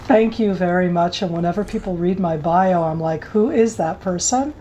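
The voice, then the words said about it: Strong American accent. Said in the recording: “I was born in the States, so that my very American accent is ... an Israeli who speaks really American English”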